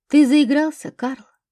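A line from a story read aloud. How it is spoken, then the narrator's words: Calm, thoughtful reply. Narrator (Russian): спокойно и даже задумчиво ответил Федор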